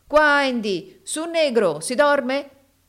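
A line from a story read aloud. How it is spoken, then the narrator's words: Shouting outdoors. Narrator (Italian): gridava Samuele sotto la veranda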